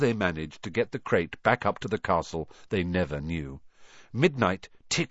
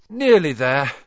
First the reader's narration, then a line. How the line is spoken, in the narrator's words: Harry panted